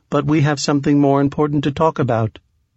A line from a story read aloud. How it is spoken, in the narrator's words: Bellwether said quickly